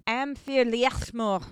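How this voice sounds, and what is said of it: Scottish accent. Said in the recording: “with your Scottish accent”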